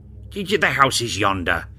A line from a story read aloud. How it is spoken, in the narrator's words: exclaimed Scrooge